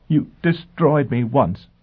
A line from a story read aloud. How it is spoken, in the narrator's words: she said in choked tones